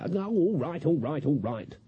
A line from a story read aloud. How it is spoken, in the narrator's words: she snapped